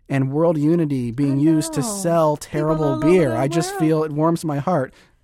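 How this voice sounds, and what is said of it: Sarcastic delivery. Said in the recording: “That was sarcasm, but please, please catch that. That was sarcasm.”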